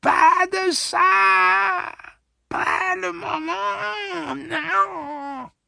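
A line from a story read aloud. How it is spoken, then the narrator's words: Impatient exclamation. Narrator (French): s'écria Réa avec impatience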